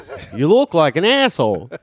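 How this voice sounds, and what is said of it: Imitated accent. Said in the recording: “I did the accent.”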